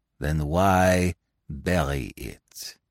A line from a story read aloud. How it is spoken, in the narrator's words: He asked softly